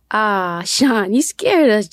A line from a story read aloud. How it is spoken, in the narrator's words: Jacob sighed